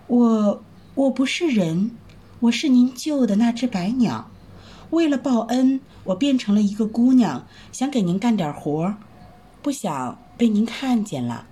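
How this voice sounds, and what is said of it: Soft, shy, quiet voice. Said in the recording (Chinese): “羞得不知如何是好。过了一会儿，才小声说”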